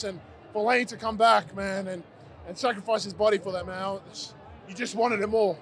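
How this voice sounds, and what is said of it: Hoarse, strained voice. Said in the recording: “I'm losing my voice now.”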